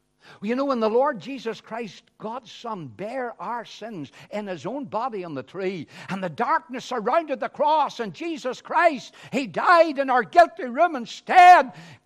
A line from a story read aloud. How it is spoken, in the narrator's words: Jesus cried out upon the cross